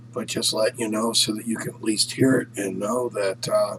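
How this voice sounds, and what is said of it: Hoarse voice. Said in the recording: “I'm a little hoarse today... having an overwhelming birthday celebration and being a little hoarse”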